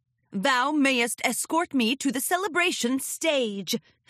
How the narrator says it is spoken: Princess Luna bellowed

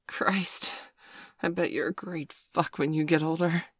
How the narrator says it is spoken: gasped

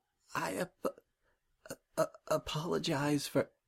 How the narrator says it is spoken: she whispered

